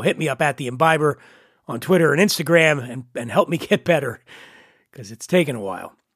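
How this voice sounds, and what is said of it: Nasal, congested voice. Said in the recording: “Apologies for the nasal twang. I'm entering week three of having the head cold from hell. I just can't get rid of this congestion.”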